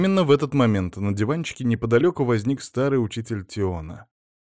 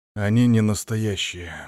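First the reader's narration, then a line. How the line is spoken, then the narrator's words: Soft reply. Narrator (Russian): мягко ответил Тион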